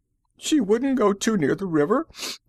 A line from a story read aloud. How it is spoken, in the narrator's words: the woman sobbed